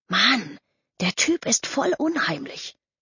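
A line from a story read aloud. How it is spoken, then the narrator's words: Whispered. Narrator (German): flüsterte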